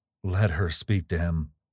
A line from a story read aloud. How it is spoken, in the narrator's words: said Gabriel in a dull voice